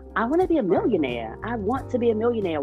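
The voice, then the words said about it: Baltimore accent. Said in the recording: “I got this funny accent. I'm from this weird city ... Baltimore”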